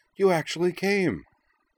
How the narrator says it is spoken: she cried

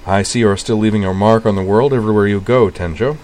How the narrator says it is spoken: Sionji observed dryly

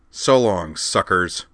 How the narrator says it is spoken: Corwin snarled

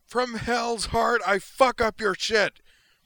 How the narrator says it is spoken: The DG's pilot bellowed furiously, his rage unwittingly transmitted by the PA to everyone within half a mile

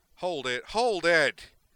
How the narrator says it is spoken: Chen bellowed

